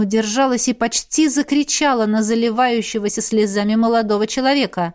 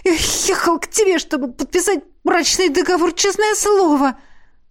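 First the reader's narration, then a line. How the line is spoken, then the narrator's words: Exclaiming. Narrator (Russian): воскликнул Кристоф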